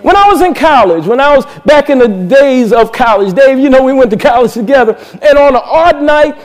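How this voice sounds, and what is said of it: Usual voice. Nothing is said of it.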